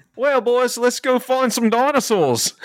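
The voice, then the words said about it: Put-on Australian accent. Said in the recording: “a fun Australian accent”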